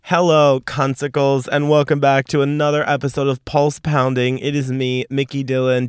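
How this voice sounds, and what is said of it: Voice not fully recovered. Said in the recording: “Do I sound like a lesbian? ... I still don't 100% have my voice back.”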